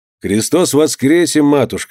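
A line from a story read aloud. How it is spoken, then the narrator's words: Cheerful. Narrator (Russian): сказал весело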